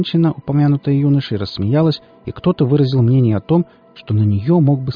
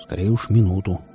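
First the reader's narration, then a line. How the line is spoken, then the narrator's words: Grumble. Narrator (Russian): буркнул Велес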